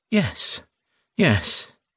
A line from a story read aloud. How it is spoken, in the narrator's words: she said in a sinking voice